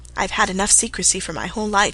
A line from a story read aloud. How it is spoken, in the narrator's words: she said